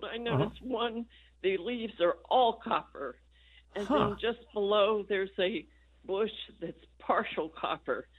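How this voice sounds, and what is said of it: Congested, stuffy voice. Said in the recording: “I have a bad cold.”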